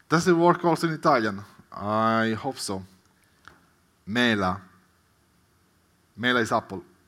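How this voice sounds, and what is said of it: Italian-accented English. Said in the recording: “I'm glad you recognize my accent.”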